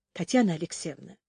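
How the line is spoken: Gentle interruption. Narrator (Russian): мягко остановил ее Дмитрий

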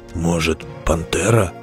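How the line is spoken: Whispering. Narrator (Russian): шепнул Белвар Дзирту

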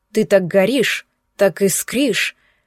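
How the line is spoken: Admiring growl. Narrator (Russian): восхищенно рычал он

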